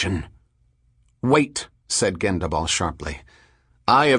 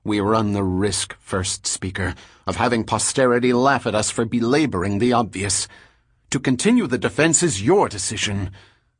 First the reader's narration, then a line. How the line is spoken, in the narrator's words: Delarmy said bitterly